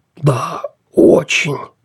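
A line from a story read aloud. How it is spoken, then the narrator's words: Polite hiss. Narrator (Russian): вежливо прошипел Пелхем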